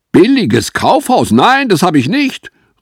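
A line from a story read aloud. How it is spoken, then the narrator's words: Calling out. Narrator (German): rief Mrs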